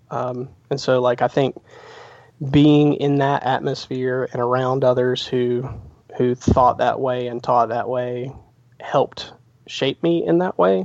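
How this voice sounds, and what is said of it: Slight Southern twang. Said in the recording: “You can probably hear the slight twang in my voice. ... I wouldn't be able to place it quite specifically to South Carolina”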